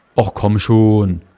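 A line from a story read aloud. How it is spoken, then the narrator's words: Lifeguard calling to boy. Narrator (German): rief der Bademeister zu dem zögernden Jungen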